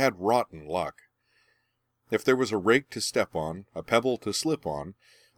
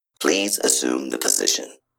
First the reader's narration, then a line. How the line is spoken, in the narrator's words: said one of the robots in an implacable synthetic voice